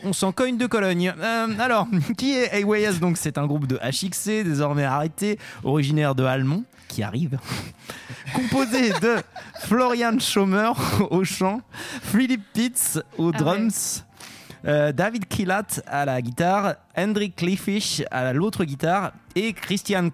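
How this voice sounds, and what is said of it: Put-on German accent, quite good. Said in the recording (French): “j'ai adoré ton accent allemand. Il en vrai, il était, très bon.”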